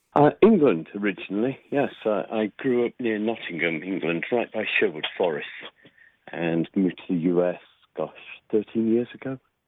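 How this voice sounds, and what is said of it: English accent. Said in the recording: “as people can hear you already, they think, well, he's probably not from Utah originally... your accent”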